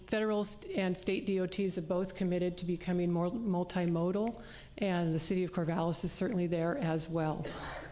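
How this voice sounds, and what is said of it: Hoarse, strained voice. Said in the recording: “I'm losing my voice a little”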